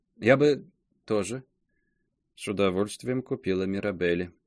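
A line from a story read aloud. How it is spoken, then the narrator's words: Muttering. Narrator (Russian): пробормотала мадемуазель Саже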